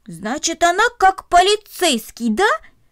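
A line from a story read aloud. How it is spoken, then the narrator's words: Joyful, pleased exclamation. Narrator (Russian): радостно воскликнул он, довольный своим открытием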